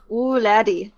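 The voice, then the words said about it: Poor attempt at Scottish accent. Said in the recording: “I cannot do a Scottish accent at all, so let's not do that again.”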